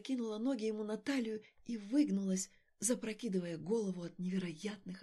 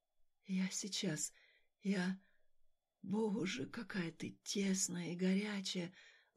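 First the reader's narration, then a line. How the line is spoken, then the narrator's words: Breathless whisper. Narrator (Russian): Задыхаясь, зашептал он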